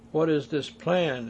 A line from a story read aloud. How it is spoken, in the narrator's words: asked Ball